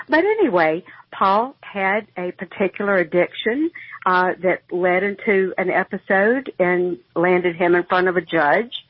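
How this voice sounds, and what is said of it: Southern American accent. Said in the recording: “you can tell by my accent I'm from the South”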